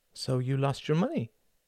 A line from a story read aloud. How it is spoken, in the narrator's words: he said softly